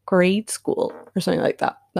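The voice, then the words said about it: Put-on American accent. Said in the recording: “That was my American accent”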